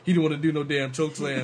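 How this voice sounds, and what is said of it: Imitates another person's voice. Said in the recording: “that Steamboat impersonation ... That's Steamboat.”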